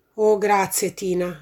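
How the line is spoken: Plain. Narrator (Italian): disse Odino

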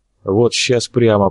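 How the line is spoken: Muttered. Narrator (Russian): пробормотал Степа

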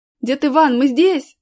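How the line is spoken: Shouting. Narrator (Russian): закричал Колян

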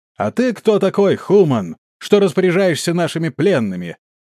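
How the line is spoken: Distant shout. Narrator (Russian): закричал издалека один из снежных эльфаров

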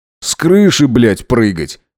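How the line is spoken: Grumbling. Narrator (Russian): проворчал Максимилиан

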